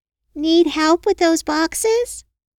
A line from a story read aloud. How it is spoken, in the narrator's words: called out